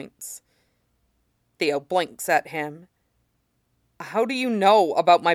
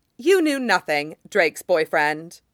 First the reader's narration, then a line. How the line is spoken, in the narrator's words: Damien snaps